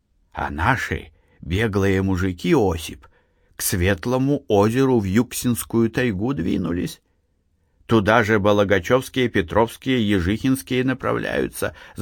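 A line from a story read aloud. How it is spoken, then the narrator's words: Old man whispering. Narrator (Russian): зашептал дед Фишка, стараясь дотянуться до уха Осипа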